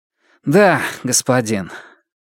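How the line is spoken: Slightly displeased tone. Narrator (Russian): немного недовольным тоном, повторил

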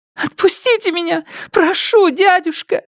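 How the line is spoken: Girl sobbing. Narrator (Russian): всхлипывала девушка

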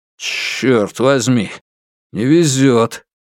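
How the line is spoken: Angry grunt. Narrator (Russian): Юань Сяофэн злобно крякнул

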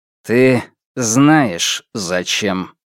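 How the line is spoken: Slow and weighty. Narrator (Russian): Медленно, веско он произнес

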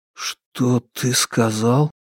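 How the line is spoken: Whisper. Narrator (Russian): прошептал

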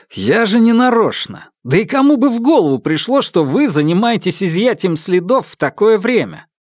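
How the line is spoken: Loud angry protest. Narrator (Russian): Ян Сюэу громко и сердито запротестовал

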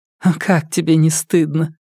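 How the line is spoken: Laughing. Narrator (Russian): Она рассмеялась

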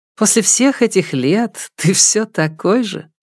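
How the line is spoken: Laughing scolding. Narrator (Russian): Чен Юй, смеясь, ругался

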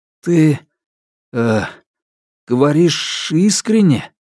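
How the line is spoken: Stammering question. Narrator (Russian): он, запинаясь, спросил

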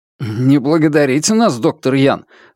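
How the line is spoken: Exclamation. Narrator (Russian): воскликнул Бьян Пинь

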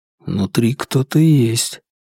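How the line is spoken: Quiet. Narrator (Russian): тихо сказал Фанму

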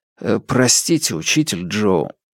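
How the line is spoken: Mumbled. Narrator (Russian): пробормотал

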